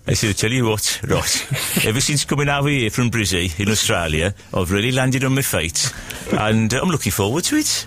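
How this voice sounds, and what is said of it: Mixed Cypriot and Australian accent. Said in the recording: “My accent, by the way, is a complete mixture of Cyprus and Australia.”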